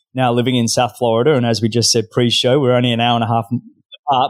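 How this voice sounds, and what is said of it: Australian accent. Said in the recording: “I'm originally Australian, as you can probably tell by my accent.”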